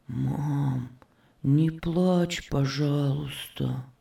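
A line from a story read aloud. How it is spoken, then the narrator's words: Whisper in ear. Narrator (Russian): Иосиф … шепнул ей на ухо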